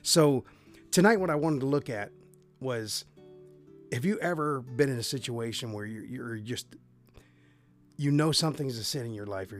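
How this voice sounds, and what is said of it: Raspy, hoarse voice. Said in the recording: “my raspy voice. Last week I caught a bad case of laryngitis due to a sinus infection ... My voice sounds like it's not so good”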